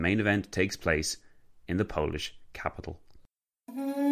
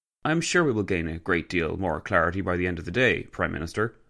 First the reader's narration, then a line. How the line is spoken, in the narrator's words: Orlando said